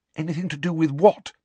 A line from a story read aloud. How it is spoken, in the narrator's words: said Hermione anxiously